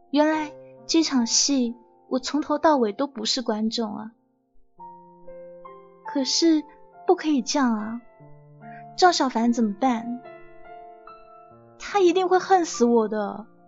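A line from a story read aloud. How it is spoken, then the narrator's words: Long sigh, dejected. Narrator (Chinese): 我被尹少杰说的哑口无言，长叹了一口气说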